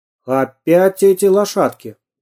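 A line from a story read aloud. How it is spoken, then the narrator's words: Stern remark. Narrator (Russian): строго заметил милиционер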